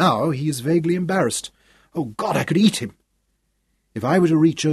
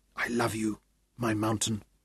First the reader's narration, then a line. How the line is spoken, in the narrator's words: whispered